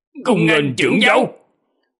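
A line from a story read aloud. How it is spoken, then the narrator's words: Raised voices. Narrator (Vietnamese): Hai người bọn họ cao giọng nói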